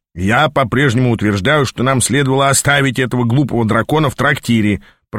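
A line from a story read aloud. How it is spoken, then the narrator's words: Grumbled. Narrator (Russian): пробурчал Ааз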